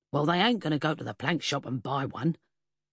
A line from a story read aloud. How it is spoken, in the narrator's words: Jerry Dawson snorted